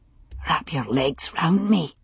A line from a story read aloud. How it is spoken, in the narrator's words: he whispered